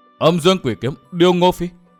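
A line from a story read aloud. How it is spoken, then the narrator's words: Trembling stammer. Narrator (Vietnamese): Tư Mã Tiểu Dư nghe nói run lên, miệng lắp bắp nhắc lại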